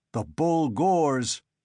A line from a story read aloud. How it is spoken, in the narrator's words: Deklay bellowed